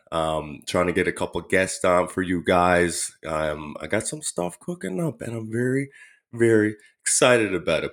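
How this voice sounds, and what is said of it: Slightly raspy voice. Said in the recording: “my voice is a little raspy... It's just been kind of like fluish a little bit”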